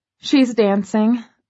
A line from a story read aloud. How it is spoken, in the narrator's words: I laugh